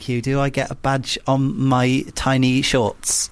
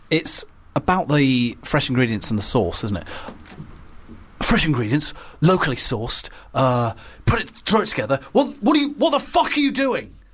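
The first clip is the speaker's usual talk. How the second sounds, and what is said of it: Imitates another person's voice. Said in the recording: “my Gordon Ramsay impression”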